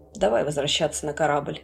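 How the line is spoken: Plain. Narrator (Russian): сказал Эндрюс

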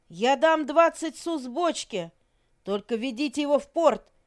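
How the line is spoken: Shouting. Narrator (Russian): кричал Леге дяде Гузару

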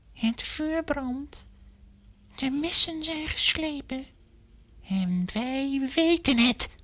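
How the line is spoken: Whispered reply. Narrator (Dutch): fluisterde hij terug

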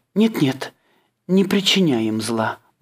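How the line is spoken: Pleading. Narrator (Russian): взмолилась она

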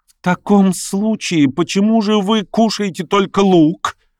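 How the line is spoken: Contemptuous exclamation. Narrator (Russian): воскликнула она с нестерпимым презрением

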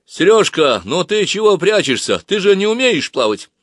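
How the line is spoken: Sudden loud. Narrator (Russian): Женька вдруг громко сказал

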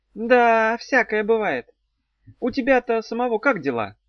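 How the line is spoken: Sad sigh. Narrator (Russian): вздохнула Зозо, грустно

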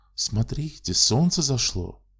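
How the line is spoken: Sad astonished exclamation. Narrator (Russian): С грустным изумлением воскликнула она

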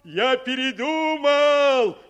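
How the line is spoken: Loud. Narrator (Russian): сказал он так громко, чтобы его услышали в домике

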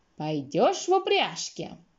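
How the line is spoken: Shrill old woman's question. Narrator (Russian): старуха визгливо спрашивала

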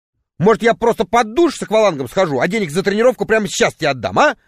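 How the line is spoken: Irritated remark. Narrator (Russian): раздраженно заметил я

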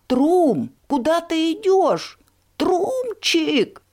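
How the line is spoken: Shout. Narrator (Russian): закричала Чаромора

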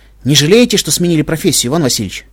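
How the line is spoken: Smirking. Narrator (Russian): хмыкнул я

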